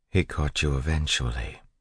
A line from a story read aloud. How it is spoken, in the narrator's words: Vin said quietly